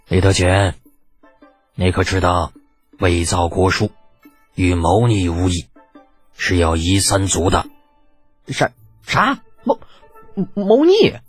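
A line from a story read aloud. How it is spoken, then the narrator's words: Cold voice. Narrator (Chinese): 李二冷声道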